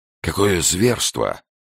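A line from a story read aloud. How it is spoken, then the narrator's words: Exclaiming. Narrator (Russian): воскликнула Анна Мейснер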